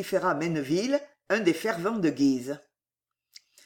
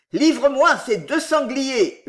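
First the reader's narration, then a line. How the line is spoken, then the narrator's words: Yelling. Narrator (French): hurla Guise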